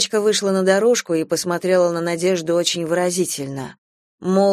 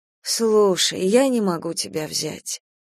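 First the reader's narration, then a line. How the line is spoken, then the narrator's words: Sighing. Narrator (Russian): вздохнула Надежда Николаевна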